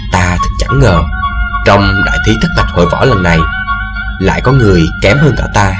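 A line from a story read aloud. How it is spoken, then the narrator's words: Soft, quiet. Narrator (Vietnamese): khe khẽ bảo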